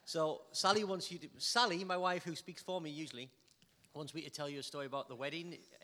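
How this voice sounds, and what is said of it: Geordie northeast English accent. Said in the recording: “I'm Geordie ... my accent, ... it's from the northeast of England and we're called Geordies”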